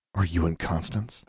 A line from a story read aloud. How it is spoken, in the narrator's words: she whispered back